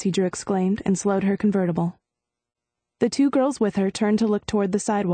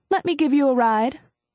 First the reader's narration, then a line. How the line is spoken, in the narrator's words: Nancy called out of her open window